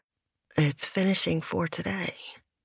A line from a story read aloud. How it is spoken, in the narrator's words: Mel mumbled back